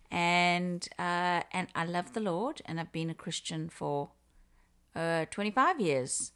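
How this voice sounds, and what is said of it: South African accent. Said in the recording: “they can hear that I have an accent. And so I am originally from Africa, from South Africa”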